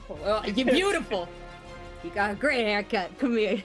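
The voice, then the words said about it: Put-on New Jersey accent. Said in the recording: “But with, like, more jersey in it. I forgot my accent.”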